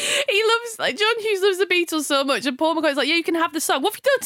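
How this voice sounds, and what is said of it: Usual voice. Nothing is said of it.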